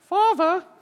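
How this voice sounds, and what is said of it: Little boy voice, British accent. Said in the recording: “I always imagine this little portion is a little British accent, little boy.”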